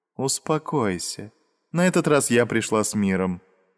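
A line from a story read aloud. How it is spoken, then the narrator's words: Calm. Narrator (Russian): спокойно произнесла она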